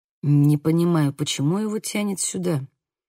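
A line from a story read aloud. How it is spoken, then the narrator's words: Mutter. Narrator (Russian): пробормотал Хольден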